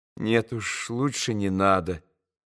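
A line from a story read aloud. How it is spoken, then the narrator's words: Quiet smiling voice. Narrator (Russian): улыбнулся он тихо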